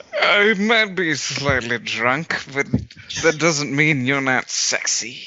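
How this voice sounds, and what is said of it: Drunken sleazy character accent. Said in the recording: “That accent! ... he's like a less classy Orson Welles”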